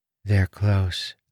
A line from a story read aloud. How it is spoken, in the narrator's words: Renarin said in a monotone voice